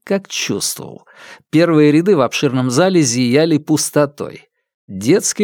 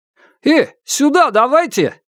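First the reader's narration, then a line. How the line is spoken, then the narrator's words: Shouted. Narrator (Russian): крикнул Руслан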